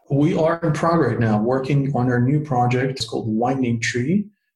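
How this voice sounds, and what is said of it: Slight Russian accent. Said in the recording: “I'm the one with a slight Russian accent.”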